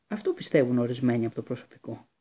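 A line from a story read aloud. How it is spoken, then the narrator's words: Calm. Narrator (Greek): απάντησε ήρεμα ο Λούπιν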